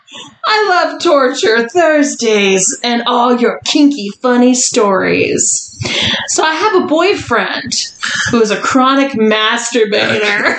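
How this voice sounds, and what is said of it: Put-on Jersey accent, male voice. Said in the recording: “Doing a Jersey accent of a man”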